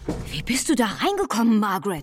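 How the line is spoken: Very excited call. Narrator (German): rief völlig aufgeregt

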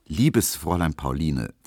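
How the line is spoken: Very calm reply. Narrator (German): versetzte Emil Kubinke sehr ruhig

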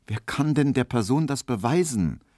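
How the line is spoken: Plain. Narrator (German): sagte Emil Kubinke

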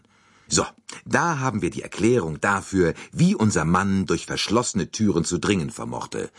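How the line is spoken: Plain. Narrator (German): sagte Monsieur Bouc

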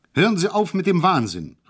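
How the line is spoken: Calling out. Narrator (German): rief ich

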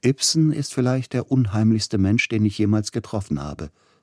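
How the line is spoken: Plain. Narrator (German): sagte Grieg

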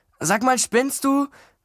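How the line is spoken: Called out. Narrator (German): rief

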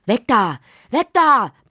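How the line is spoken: Father roaring. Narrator (German): brüllte Lottis Vater

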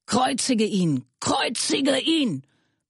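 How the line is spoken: Crowd screaming. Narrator (German): schrien sie

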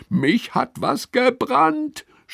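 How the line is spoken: Screaming. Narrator (German): schreit Lilly

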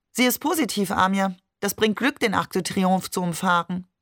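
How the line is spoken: Cold. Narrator (German): Maman sagte kalt

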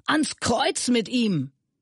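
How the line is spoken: Crowd screaming louder. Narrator (German): Sie aber schrien noch lauter

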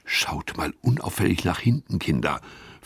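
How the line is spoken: Whispered. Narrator (German): flüstert Gustav

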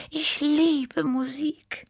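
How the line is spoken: Sighing. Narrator (German): seufzte Tippi

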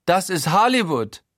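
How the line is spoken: Eccentric exclamation. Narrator (German): ruft Guido exzentrisch

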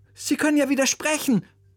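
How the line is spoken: Calling out. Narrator (German): rief Oliver seinem Musiklehrer zu

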